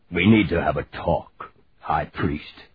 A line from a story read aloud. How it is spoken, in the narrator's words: he said gruffly